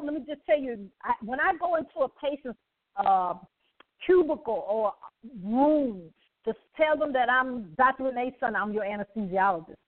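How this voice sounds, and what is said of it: Speaks with a noticeable accent. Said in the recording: “They they love my accent.”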